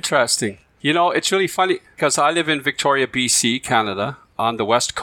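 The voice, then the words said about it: Unusual, hard-to-place accent. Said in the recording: “an oh-so-sexy and mysterious accent ... I'm not sure if I've heard an accent quite like yours”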